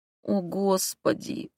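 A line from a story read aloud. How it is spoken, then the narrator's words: Moan. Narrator (Russian): простонала я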